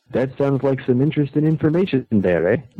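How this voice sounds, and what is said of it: Weak put-on French-Canadian accent. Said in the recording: “That was kind of my French-Canadian accent, but I don't do a very good job.”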